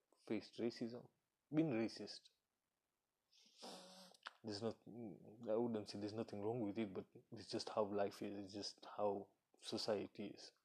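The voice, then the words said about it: African accent. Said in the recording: “if you can tell from my accent, but I grew up in Africa”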